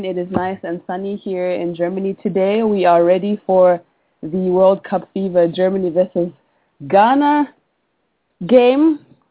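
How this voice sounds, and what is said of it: Slightly congested voice. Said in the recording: “I have a little bit of a cold ... You can hear just a little bit of a difference in my voice”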